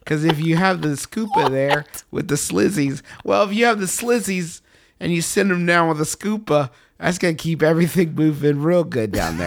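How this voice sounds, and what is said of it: Adventure-movie side character voice. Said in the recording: “talking like a tertiary character from an Indiana Jones movie”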